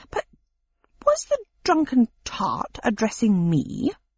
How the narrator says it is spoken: said Pickwick haughtily

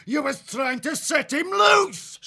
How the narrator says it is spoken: Swart roared

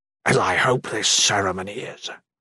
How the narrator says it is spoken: Shatan whispered, coming close

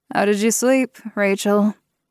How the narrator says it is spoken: Kristoff asked her through a yawn

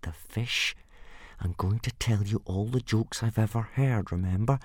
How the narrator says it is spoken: said Hiccup through gritted teeth

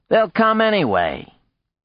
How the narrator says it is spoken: Sax said

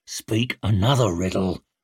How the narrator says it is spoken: snarled Shivers

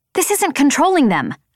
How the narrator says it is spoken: I snapped

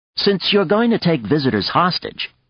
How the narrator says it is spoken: said sharply

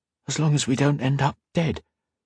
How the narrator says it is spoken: Octavia whispered to Modo

